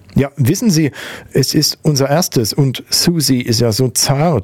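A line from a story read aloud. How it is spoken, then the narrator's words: Stuttering. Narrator (German): stotterte er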